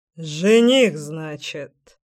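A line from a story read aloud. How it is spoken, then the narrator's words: Wry snort. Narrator (Russian): хмыкнул он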